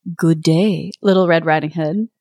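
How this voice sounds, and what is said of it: Sexy voice for a wolf character. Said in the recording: “doing a sexy voice for the wolf”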